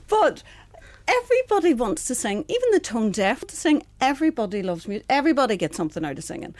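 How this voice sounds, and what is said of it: Northern Irish Tyrone country lilt. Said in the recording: “a little hint of Derry in your accent? ... A little hint of Tyrone. ... a lovely country lilt to your accent”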